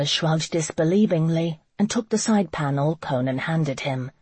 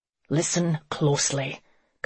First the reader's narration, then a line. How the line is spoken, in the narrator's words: Conan said through gritted teeth